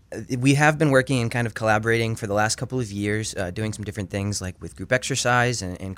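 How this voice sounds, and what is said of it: Rough, hoarse voice. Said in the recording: “My voice is a little rough because I've been battling a cold.”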